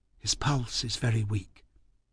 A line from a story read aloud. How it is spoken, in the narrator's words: Miss Kenton say softly behind me